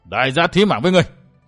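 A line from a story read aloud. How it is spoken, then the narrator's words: Roaring. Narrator (Vietnamese): Người bịt mặt gầm vang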